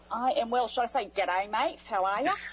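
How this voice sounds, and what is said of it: Australian accent. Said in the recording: “I love the accent, and I love all things Australia”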